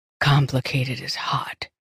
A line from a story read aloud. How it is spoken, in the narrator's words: he whispered